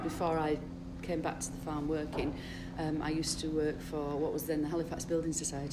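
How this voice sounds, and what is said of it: Local Lancashire-Yorkshire border accent. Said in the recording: “would you say you were typical Lancashire accents? ... from here, accents. I was born here. ... it's a border. ... We are in Yorkshire.”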